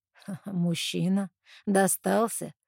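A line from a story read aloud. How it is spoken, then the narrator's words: Mocking question. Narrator (Russian): насмешливо переспрашивает везунчик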